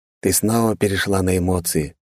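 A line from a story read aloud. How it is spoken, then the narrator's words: Calm. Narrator (Russian): спокойно покачал головой Джан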